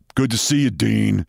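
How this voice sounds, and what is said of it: Deep voice, New York accent. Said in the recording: “in a deep voice, New York accent,”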